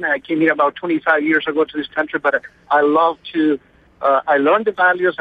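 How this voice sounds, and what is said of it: Non-native English accent. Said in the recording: “I am not from here. I have an accent.”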